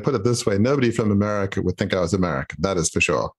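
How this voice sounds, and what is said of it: Australian accent. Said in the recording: “originally from Australia ... I can hear the accent ... I can hear it”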